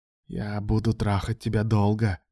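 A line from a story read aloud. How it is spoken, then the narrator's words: Whispering in ear. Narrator (Russian): шептал Алан ему в ухо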